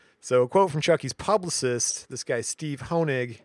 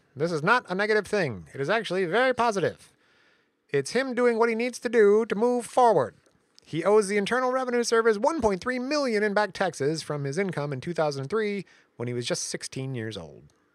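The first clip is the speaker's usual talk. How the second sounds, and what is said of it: Nasal cartoon lawyer voice. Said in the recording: “I'll do my lawyer voice. ... I'm trying to do the lawyer from The Simpsons, but it's hard. He's super nasal”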